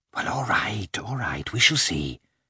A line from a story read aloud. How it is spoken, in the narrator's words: Kitty whispered